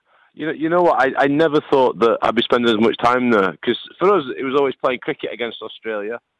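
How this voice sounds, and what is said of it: Northern English Lancashire accent. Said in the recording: “I'm from Lancashire. ... we've come to know that northern accent and love it”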